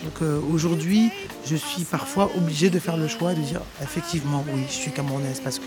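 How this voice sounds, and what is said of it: Parisian French accent. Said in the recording (French): “Moi, je me sens assez parigote d'une manière, ne serait-ce que mon accent et ma manière de me mouvoir ou le rythme de ma parole, mon débit.”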